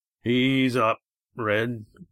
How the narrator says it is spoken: growled Roaring Jack

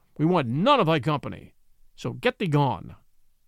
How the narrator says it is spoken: said the lean brother harshly, for he saw that Little John made sport of them

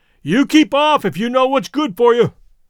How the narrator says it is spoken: he called out suddenly, as though he had made up his mind as to who and what we were

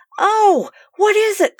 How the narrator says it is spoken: called Sue in a shaking voice from above

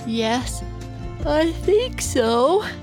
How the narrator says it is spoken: Bennett said with a great big yawn

